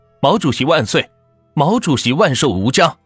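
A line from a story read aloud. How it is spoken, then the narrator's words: Crowd chanting slogans. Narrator (Chinese): 台下也是跟着喊起了口号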